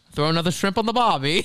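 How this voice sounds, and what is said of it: Put-on Australian accent. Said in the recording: “that was an amazing Australian accent I did”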